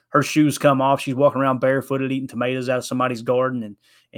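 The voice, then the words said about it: Kentucky Southern country accent. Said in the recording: “my accent ... you sound like a country singer ... You think I speak cornbread ... born and raised in Kentucky”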